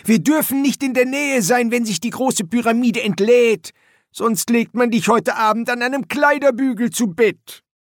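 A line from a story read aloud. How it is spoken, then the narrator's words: Calling into his ear. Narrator (German): rief ihm ins Ohr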